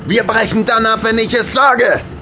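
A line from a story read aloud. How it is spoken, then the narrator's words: Shouted. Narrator (German): schrie Colt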